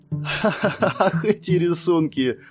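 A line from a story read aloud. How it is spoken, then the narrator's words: Girl's laughter. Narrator (Russian): засмеялась девушка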